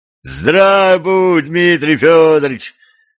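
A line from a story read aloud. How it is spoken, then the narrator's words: Joyful yelling. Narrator (Russian): радостно завопил кто-то из бояр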